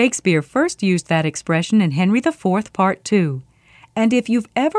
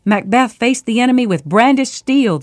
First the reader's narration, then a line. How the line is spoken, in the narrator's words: the soldier gasped